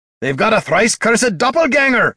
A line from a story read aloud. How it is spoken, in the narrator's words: Gorm yelled